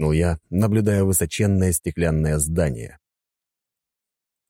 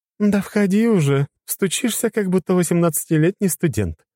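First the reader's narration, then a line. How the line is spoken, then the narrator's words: Giggled. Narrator (Russian): хихикнула царица Ольга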